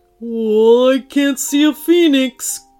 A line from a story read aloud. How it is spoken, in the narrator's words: grumbled the Yeti